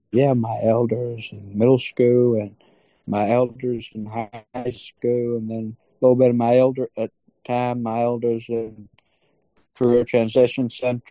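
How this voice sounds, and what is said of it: Strong Southern accent, old-timey speech. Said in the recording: “you have a pretty strong Southern accent... And just an old-timey way of talking”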